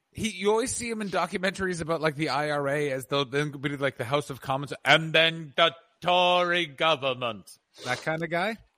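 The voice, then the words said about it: Poor imitation of a Welsh accent. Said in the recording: “That is not a good Neil Kinnock actor ... he's Welsh ... That was my version of a Welsh accent.”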